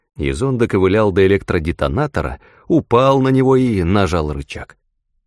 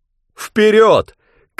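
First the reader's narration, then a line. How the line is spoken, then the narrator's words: Shouted. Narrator (Russian): крикнул Язон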